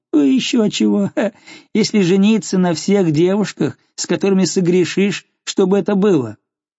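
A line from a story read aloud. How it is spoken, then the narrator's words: Laughing reply. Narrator (Russian): Он засмеялся и ответил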